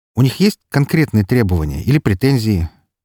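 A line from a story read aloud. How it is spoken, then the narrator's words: Heavy sigh. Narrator (Russian): Тяжело вздохнул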